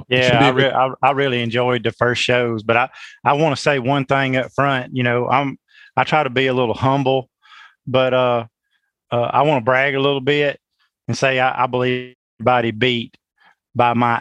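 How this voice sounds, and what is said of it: Very strong regional accent. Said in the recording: “I think I have the strongest accent ... You got the accent contest down pat. No one's touching you there”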